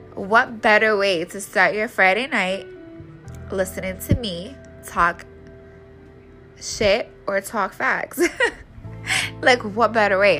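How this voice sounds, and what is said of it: Stuffy, congested nasal voice. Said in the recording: “I sound super stuffy. ... I've been having nasal congestion ... there's words that sound so funny, and it's because of my congestion ... things that I say that does not sound clear”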